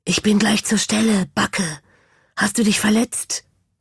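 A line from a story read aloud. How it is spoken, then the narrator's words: Whispered. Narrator (German): flüsterte es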